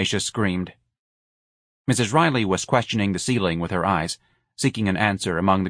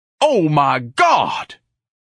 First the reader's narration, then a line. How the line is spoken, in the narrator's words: Ignatius bellowed